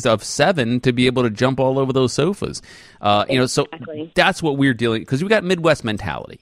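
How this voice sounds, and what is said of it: Slight New York accent. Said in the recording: “I'm a New Yorker. You know, you can hear it when I get angry ... I can hear it a little bit now. You have that twang.”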